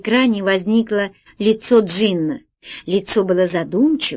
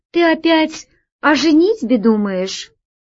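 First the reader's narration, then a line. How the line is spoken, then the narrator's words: Sigh. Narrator (Russian): вздохнула Алиса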